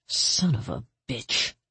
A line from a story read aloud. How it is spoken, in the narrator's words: she murmured